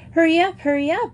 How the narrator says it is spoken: exclaimed Joey, dancing with impatience

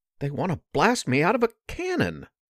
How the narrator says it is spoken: Porkchop exclaimed

